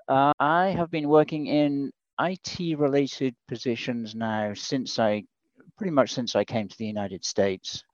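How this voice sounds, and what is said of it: British accent. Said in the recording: “people are going to pick up right away on your accent ... My accent's from the UK ... I'm trying not to lose the accent”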